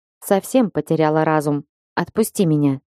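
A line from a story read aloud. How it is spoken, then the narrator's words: Icy tone. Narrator (Russian): сказала Малгожата ледяным тоном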